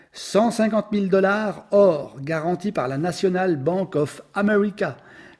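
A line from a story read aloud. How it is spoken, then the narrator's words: Plain. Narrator (French): répondit Flanagan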